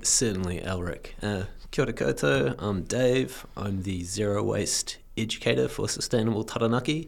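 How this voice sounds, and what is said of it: Sick-sounding voice. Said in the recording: “I apologize for my voice. I am currently stricken with the plague.”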